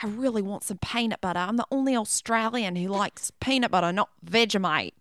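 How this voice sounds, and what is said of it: Australian accent impression. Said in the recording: “Your accent is fire. That was really ... good.”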